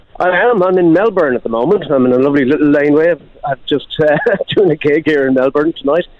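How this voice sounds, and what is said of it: Irish accent. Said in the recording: “we can tell from your accent that you're from that wonderful country of Ireland”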